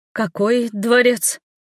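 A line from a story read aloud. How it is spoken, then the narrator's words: Stammering question. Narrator (Russian): спросила я, заикаясь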